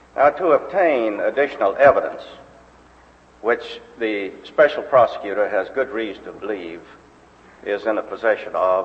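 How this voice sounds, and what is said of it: Texas accent. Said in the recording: “you notice his accent from a childhood spent in Waco, Texas”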